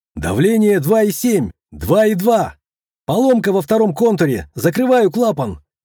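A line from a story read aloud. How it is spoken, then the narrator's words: Engineer's shout. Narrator (Russian): крикнул инженер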